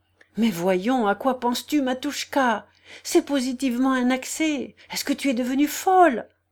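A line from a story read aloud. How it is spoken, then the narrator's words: Terrified exclamation. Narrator (French): s'écria dans son épouvante Daria Alexievna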